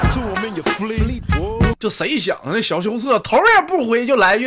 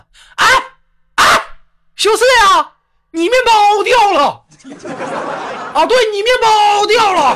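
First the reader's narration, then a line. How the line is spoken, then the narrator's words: Teasing call from behind. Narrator (Chinese): 这位二栓就本来想调戏一下小羞涩呀、就在后面就喊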